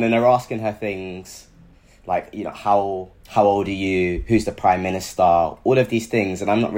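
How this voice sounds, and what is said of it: Usual voice. Nothing is said of it.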